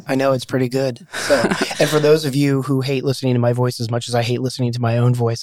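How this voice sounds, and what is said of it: Slightly scratchy, hoarse voice. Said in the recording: “I'm a little scratchy this morning. I lost my voice yesterday. It's magically back”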